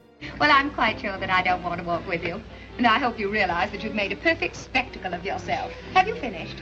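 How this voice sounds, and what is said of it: Transatlantic mid-Atlantic accent. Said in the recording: “Katharine Hepburn's accent in Bringing Up Baby ... It's called the transatlantic or the mid-Atlantic accent”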